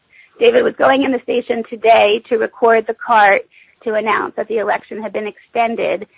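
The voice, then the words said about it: Strained, fading voice. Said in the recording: “I'm starting to lose my voice.”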